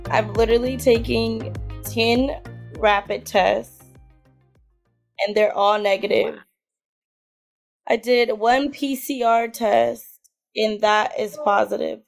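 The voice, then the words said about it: Raspy, strained hoarse voice. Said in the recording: “My throat and my voice is gone, but that's just because I'm a screamer... I feel like all of our voices are like raspy”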